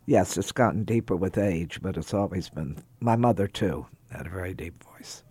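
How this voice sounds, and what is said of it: Unusually deep voice. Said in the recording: “My voice is unusually deep this morning. It's very deep. ... You do have an unusually deep voice.”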